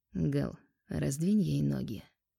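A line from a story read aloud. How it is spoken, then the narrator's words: Quiet speech. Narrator (Russian): произнес негромко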